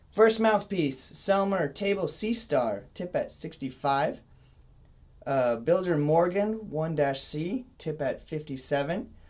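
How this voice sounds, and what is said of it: Sick, slightly rough voice. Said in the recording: “My voice is a little sick today”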